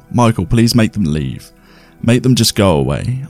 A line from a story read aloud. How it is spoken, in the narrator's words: I called out to him